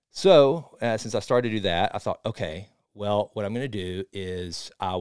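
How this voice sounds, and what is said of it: Usual voice. Nothing is said of it.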